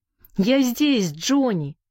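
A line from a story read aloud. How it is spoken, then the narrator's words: Shouted. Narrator (Russian): крикнул Сэнди с порога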